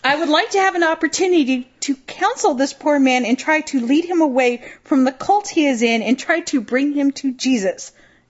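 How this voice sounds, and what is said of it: Attempted southern accent. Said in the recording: “I'll see if I can get my southern accent going here, which I probably can't”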